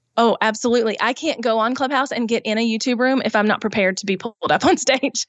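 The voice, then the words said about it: Southern American accent. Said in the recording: “I have an accent. ... you're that Southern girl from YouTube”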